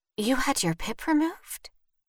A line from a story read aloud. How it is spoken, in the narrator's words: Vivian whispered